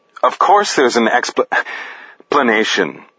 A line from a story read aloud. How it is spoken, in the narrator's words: Chad stuttered in response to Danny's question